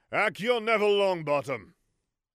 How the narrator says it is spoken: he loudly exclaimed

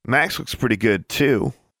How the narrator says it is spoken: giggled Angelique

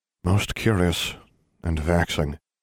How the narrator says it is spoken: Dumbledore murmured

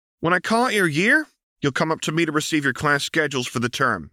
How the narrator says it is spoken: Missy called out

